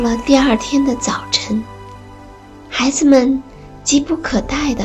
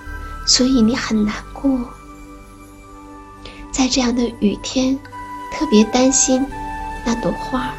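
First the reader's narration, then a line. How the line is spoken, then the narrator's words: Gentle mother. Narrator (Chinese): 妈妈温柔地说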